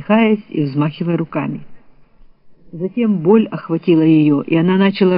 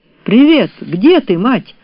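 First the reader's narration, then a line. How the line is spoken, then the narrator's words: Cheerful exclamation. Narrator (Russian): жизнерадостно воскликнул Рон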